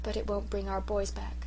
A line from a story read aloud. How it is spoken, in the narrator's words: she added under her breath